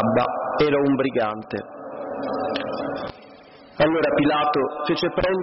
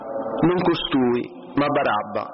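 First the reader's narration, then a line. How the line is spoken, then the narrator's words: Crowd shouting again. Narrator (Italian): Allora essi gridarono di nuovo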